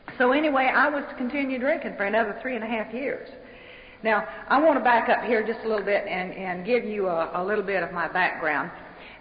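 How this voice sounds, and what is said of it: Southern American accent. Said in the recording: “I don't speak English. I speak Southern.”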